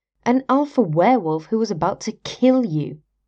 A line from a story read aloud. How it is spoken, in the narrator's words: Derek scoffed